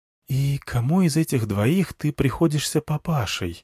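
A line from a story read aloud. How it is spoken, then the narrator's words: Whisper in ear. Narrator (Russian): шепнула мне на ухо Змеямба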